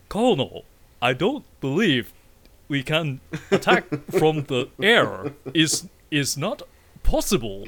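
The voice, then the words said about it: Stilted, robotic, badly dubbed voice. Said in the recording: “dubbed, like, heavily ... like an old GPS ... I'm talking like a Garmin GPS from before your phone could tell you where to go ... everything is so stilted”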